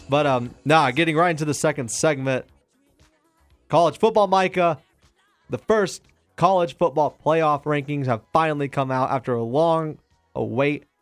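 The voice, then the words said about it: Sick, weak fading voice. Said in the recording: “I'm sick ... My voice is slowly fading.”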